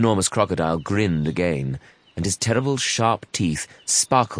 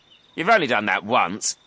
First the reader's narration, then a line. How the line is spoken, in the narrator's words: snorted the not-so-big one